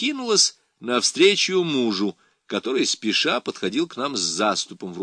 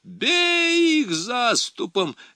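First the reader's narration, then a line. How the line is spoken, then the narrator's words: Screaming young woman. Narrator (Russian): вопила молодица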